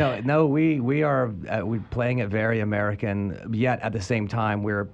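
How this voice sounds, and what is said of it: Usual voice. Nothing is said of it.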